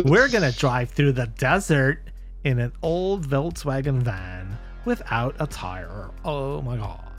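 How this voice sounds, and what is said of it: Valley Girl voice. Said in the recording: “doing that voice ... Valley Girl”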